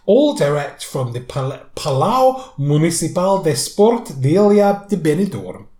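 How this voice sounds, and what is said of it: Portuguese-sounding accent on place name. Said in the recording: “I don't know what kind of accent that was in ... sounded Portuguese ... It did sound a bit more Portuguese”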